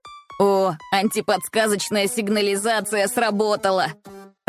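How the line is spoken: Laughing loudly. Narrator (Russian): расхохотался Эй

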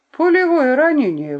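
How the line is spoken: Exclamation. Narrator (Russian): воскликнул он

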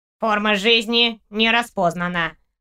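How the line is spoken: Nasal loudspeaker. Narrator (Russian): прогнусавил динамик

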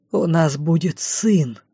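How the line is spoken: Breathed out in disbelief. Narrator (Russian): выдохнул, кажется, сам не поверил в собственные слова

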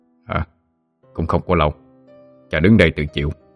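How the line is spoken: Low husky, smiling. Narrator (Vietnamese): Long Bò Cạp nhẹ mỉm cười nói với giọng trầm khàn

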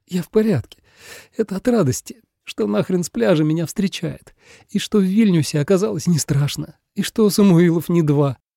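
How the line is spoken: Tearful explanation. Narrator (Russian): Объяснила сквозь слезы

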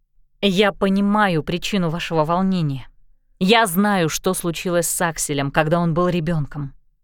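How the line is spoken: Soft, gentle. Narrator (Russian): мягко сказала Энджи

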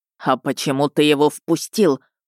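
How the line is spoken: Snake-like hiss. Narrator (Russian): прошипел не хуже какой-нибудь змеи

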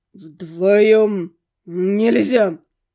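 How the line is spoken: Speech with beastly growl. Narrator (Russian): Сквозь человеческую речь пробивалось отчетливое рычание зверя

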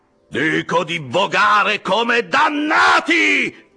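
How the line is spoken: Man yelling. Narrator (Italian): urlò l'indiano

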